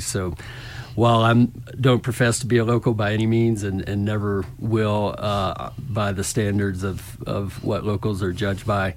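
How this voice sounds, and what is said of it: Slight Southern accent, hint of Texas drawl. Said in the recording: “Thought I detected a little tinge or something there. ... A little southern accent. Maybe with a hint of Texas draw sometimes.”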